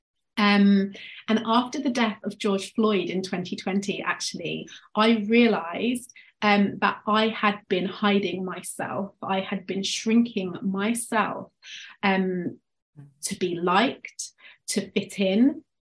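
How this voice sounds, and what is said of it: English accent. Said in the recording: “obviously you can tell from my accent, I'm from England”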